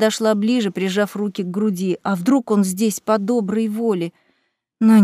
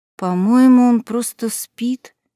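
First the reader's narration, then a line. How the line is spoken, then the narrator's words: Uncertain. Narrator (Russian): неуверенно сказала Аннабет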